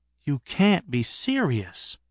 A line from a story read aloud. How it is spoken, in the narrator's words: I said quietly